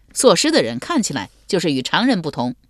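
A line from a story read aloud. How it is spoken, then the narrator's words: Laughing. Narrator (Chinese): 张护笑道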